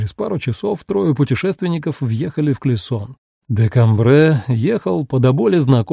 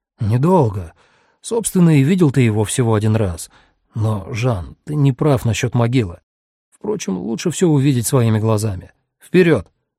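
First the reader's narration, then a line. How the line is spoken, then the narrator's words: Exclaimed. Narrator (Russian): воскликнул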